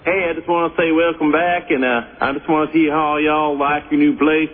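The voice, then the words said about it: Fake put-on accent. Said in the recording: “This is not your real accent. Why are you using a phony voice?”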